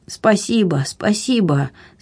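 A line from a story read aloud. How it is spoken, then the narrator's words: Weak grateful voice. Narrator (Russian): слабым голосом поблагодарил Муньес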